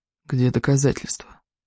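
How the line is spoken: Whispered question. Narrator (Russian): шепотом спросил Лео

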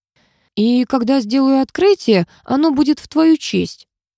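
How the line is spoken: Sighing addition. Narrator (Russian): вздохнув, добавил Томатин

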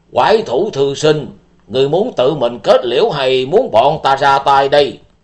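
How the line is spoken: Stern old man shouting. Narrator (Vietnamese): Lão nhân mặt đỏ tóc xám, người cầm đầu của 38 trại trại chủ, nghiêm giọng quát lớn

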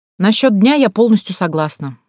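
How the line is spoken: Woman's amused snort. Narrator (Russian): хмыкнула женщина

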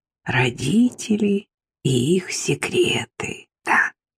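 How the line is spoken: Whisper. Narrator (Russian): прошептала

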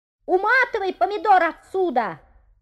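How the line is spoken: Shouting. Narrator (Russian): закричала Люся

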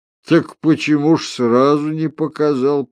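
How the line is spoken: Grumbling. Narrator (Russian): проворчал охотник

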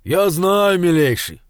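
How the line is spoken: Deep bass voice. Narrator (Russian): на ходу басил батюшка

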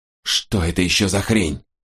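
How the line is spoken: Hissing. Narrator (Russian): прошипел он

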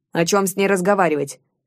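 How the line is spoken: Dismissive snort. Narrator (Russian): пренебрежительно фыркнул вождь

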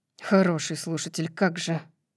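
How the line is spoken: Muttering. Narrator (Russian): Бормочет Ленни

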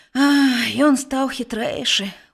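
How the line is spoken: Sighing. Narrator (Belarusian): уздыхнуў Мінас

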